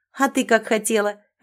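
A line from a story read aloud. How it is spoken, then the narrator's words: Laughing. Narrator (Russian): рассмеялась Мира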